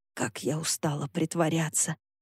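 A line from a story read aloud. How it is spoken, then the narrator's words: Muttered under breath. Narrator (Russian): пробормотала Санми под нос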